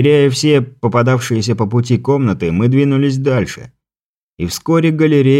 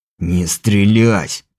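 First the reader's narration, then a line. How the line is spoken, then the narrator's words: Furious hissing. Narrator (Russian): прошипел взбешенный этой оплошностью Моран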